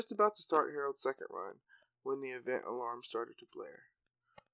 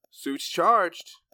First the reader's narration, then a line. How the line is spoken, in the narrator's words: shouted Harold